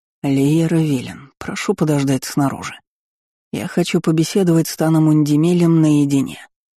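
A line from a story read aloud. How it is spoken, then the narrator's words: Deadly calm tone. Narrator (Russian): произнес Тан Торан убийственно спокойным тоном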